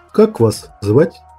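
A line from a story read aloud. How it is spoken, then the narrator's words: Plain. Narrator (Russian): спросил космоследователь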